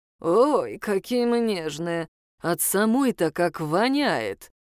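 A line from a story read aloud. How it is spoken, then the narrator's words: Growled. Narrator (Russian): прорычал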